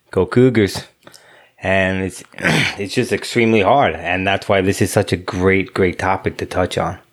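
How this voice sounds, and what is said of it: Thick Southern Louisiana accent. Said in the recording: “has a very thick accent. He's clearly a resident of Alabama... born and raised in the Bayou... It's in Louisiana”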